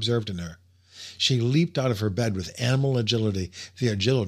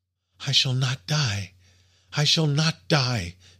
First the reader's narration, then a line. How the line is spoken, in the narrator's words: she cried, half mad with joy